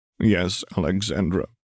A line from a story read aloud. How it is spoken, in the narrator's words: Hela groaned